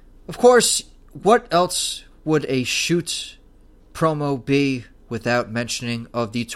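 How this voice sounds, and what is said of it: Usual voice. Nothing is said of it.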